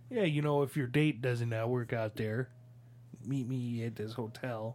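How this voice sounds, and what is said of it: Put-on Chicago accent. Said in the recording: “Is that your accent? ... it's Chicago. If you're going to try and tell me that's not a good Chicago accent ... It's really good. ... It's so good.”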